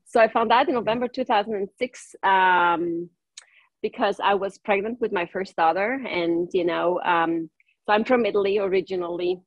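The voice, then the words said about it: German accent in English. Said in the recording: “my native language is German. That's where my accent comes from ... Oh, it's Germany ... I don't have an Italian accent.”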